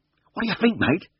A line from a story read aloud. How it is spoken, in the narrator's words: gasped